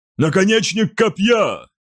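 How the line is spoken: Loud bark. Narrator (Russian): гаркнул он

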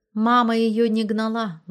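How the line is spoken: Sighing. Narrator (Russian): вздохнув, сказала Раиса

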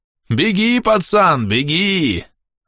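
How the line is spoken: Shout. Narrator (Russian): закричал гринорец

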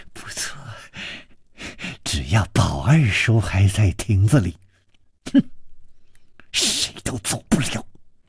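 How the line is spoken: Malicious smile. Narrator (Chinese): 施少奶奶的嘴角也泛起了一丝恶意的微笑，说

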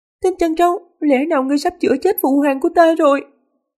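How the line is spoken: Startled, half sobbing. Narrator (Vietnamese): Linh Dục Tú giật nảy mình, giọng nói có phần nức nở

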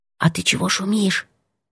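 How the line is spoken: Whisper. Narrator (Russian): сказала шепотом

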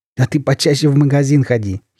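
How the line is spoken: Giggling. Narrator (Russian): хихикнул Олежка

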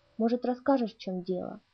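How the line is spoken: Soft suggestion. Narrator (Russian): мягко предложил я

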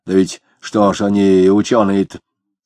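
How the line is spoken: Grunting, grumbling. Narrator (Russian): Денисов, крякнув, проворчал

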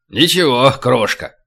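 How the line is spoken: Cheerful rumbling bass. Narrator (Russian): бодрым басом пророкотал карабан

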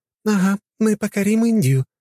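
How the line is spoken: Giggling. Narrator (Russian): продолжала она хихикать

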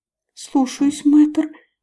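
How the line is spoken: Stifled squeak. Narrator (Russian): придушенно пискнула Лалил

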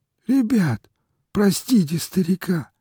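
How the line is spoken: Old man sobbing, nearly shouting. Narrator (Russian): всхлипывая, чуть ли не крича, заговорил дед

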